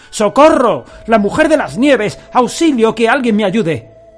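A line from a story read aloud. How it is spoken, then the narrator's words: Desperate cry for help. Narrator (Spanish): Minokichi recobró las fuerzas y logró gritar pidiendo auxilio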